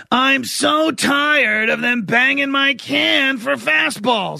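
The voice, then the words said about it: Oscar the Grouch impression. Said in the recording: “does a better impression than me... Pretty good, man... speak more, Oscar... Tell me how grumpy you are today, Oscar”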